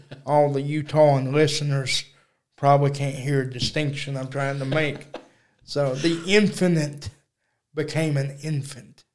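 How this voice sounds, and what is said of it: Strong Texas accent. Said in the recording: “I got a big Texas accent.”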